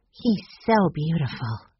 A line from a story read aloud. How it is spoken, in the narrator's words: breathed Violet